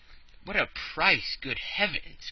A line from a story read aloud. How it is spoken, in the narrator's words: cried Passepartout